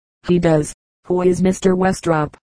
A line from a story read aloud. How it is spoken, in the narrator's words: I inquired